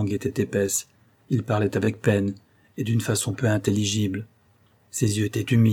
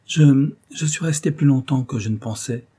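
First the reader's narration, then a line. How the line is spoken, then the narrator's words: Conciliatory reply. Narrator (French): répondit Phoebe d'un ton conciliant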